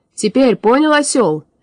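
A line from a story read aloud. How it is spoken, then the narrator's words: Wall-shaking bark. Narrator (Russian): рявкнул Кощей, да так, что стены затряслись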